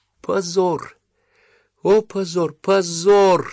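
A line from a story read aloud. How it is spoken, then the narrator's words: Slow, sobbing. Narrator (Russian): медленно проговорила она, продолжая рыдать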